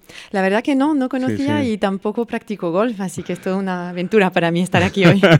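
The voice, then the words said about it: Speaks Spanish with a foreign accent. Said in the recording (Spanish): “vienes de Luxemburgo ... le conocerán no solo por su acento”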